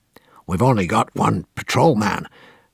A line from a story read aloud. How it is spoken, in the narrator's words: Don Rugoff, the American distributor, kept muttering morosely